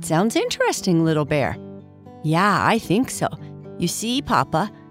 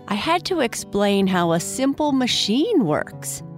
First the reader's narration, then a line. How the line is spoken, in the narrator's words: Bernice replied excitedly